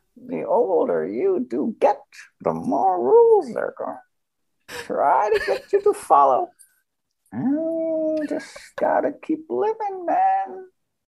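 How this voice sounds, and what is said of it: Put-on old lady voice. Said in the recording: “you made the mistake of doing an old lady accent earlier. I want to hear this old lady accent.”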